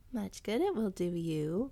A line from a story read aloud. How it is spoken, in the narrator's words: purred Whitehead, her fur cracking noisily, and her mouth watering for the taste of rat steak